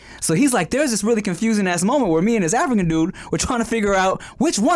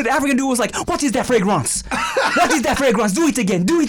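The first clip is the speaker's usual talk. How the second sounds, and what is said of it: Fumbled put-on French accent. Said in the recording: “I fucked my accent. I got all discombobulated right now... When you did the French accent”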